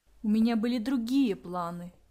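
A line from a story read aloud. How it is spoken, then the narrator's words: Said through teeth. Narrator (Russian): процедила Василиса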